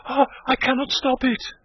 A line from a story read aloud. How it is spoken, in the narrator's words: she cried